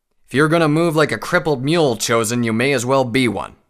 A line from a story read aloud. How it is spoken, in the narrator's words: snarled